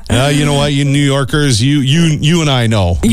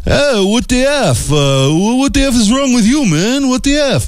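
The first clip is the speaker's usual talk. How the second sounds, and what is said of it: Put-on New York City accent. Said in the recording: “Oh, he's and, French. ... No, that was my New York City accent.”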